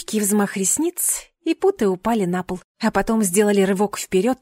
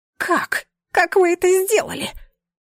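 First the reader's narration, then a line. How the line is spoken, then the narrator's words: Unexpectedly high squeak. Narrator (Russian): Неожиданно тонким голосом пискнул он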